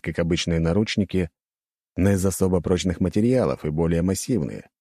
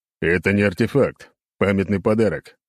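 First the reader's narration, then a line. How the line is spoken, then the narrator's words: Growled reply. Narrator (Russian): рыкнул в ответ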